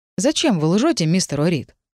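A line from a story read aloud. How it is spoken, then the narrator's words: Calm question. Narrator (Russian): спокойно поинтересовался агент Лайт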